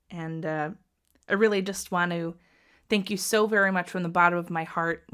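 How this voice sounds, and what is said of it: Emotional voice. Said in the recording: “I'm getting a little emotional ... It's totally okay to get emotional”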